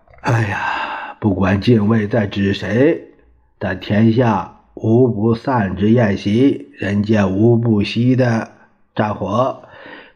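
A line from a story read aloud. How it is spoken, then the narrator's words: Sighing. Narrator (Chinese): 王精卫叹了一口气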